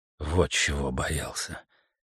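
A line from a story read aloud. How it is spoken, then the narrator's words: Quiet. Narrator (Russian): тихо сказал Стентон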